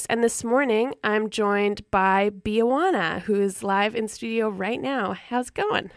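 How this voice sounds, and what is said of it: Froggy, croaky morning voice. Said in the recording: “my voice is going to warm up and I won't sound like a little frog over here... our froggy voices this morning”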